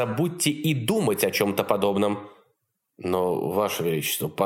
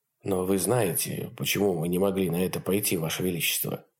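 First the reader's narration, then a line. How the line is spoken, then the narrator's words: Quiet. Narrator (Russian): тихо сказал Кромарти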